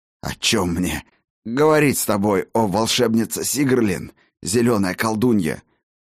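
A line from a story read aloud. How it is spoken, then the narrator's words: Hoarse rasp. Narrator (Russian): прохрипел Хаген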